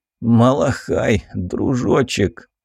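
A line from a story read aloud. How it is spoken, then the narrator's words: Weak-voiced Cossack. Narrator (Russian): слабым голосом произнес казак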